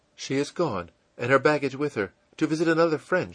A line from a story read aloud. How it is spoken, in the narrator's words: in a frightened tone